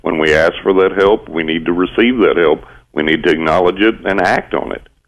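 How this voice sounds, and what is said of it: West Texas accent. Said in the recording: “you sound like my excellent Uncle Pal from Texas ... I am from West Texas”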